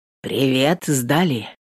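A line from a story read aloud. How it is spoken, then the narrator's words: Hoarse question. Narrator (Russian): хрипловато спрашивает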